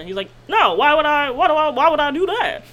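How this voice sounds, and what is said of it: Imitates another person's voice. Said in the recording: “my best Barack Obama impression.”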